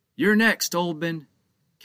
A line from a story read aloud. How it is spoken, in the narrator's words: Captain Joe shouted